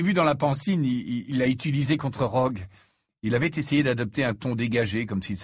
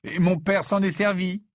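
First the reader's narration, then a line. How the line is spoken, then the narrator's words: Plain. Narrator (French): dit Harry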